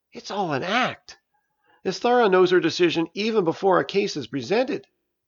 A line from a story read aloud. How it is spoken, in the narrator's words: She quietly exclaimed